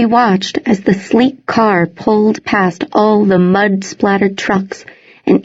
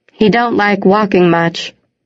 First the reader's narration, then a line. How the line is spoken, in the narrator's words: Gilbert said